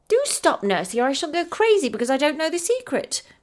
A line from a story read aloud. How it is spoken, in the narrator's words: cried Effie more than once